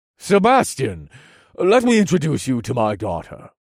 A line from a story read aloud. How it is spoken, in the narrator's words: the Duke interjected in a formal tone